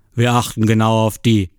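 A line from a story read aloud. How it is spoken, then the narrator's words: Father calling. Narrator (German): ruft mein Vater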